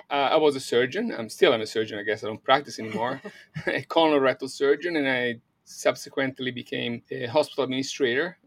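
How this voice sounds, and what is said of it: Italian accent. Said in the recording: “But you're not American. I can hear an accent ... my accent. I'm Italian.”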